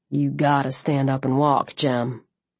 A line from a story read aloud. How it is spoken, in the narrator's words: he said quietly